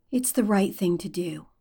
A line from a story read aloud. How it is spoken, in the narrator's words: Derek says quietly